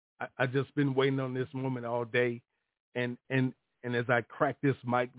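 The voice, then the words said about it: Choked-up, emotional voice. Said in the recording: “my voice is getting choked up”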